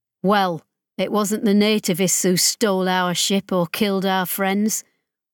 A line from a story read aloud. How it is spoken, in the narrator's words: Ollie said flatly